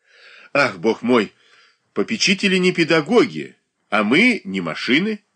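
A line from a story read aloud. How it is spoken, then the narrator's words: Exclaiming. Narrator (Russian): воскликнула Софья Андреевна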